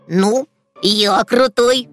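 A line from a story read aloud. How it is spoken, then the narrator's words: Smug snort. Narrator (Russian): самодовольно хмыкнул Расмус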